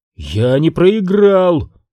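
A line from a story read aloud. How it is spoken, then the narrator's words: Wailing cry. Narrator (Russian): взвыл принц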